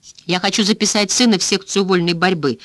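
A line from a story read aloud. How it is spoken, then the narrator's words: Quick speech. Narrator (Russian): быстро сказала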